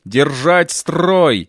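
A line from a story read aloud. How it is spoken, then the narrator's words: Growl. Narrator (Russian): прорычал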